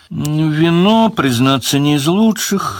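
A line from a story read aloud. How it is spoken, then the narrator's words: Sad. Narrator (Russian): грустно сказал Леверлин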